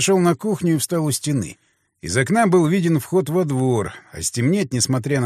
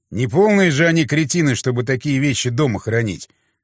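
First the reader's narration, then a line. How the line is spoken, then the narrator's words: Snorting. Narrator (Russian): фыркнул я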